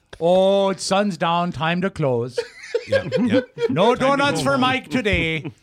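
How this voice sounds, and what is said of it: Put-on Canadian accent, sounds Maine. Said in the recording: “is that a Maine accent? ... No, I was trying to do Canada.”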